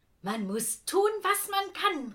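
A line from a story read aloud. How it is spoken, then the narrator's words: Shouted. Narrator (German): rief er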